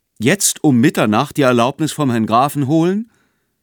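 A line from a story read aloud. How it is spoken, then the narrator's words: Young man calling out. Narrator (German): rief der junge Mann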